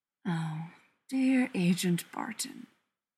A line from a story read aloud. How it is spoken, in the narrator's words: Loki purrs